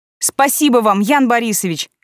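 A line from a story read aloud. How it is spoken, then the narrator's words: Shouted while running away. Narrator (Russian): крикнула я, убегая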